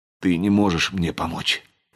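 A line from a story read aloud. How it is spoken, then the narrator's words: Hoarse whisper. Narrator (Russian): хрипло прошептал Ричард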